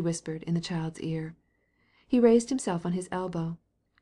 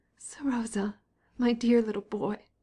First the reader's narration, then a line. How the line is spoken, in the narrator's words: she cried, choking with tears